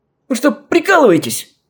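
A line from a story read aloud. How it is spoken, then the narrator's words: Shrieked. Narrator (Russian): взвизгнул гость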